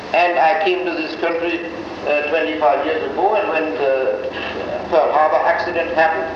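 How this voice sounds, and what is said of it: German accent. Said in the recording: “I am of German descent, as you know by my accent”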